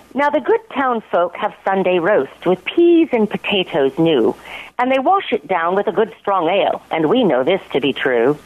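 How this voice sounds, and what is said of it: Put-on English accent. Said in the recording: “I don't think it reads well unless you read it with an English accent. So if you'll indulge me.”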